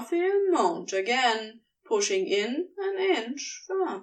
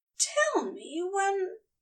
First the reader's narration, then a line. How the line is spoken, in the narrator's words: he trailed off, gasping